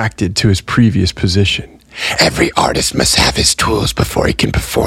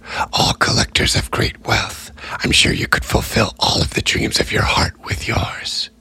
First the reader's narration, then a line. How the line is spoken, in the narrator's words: The Tallykeeper ... whispered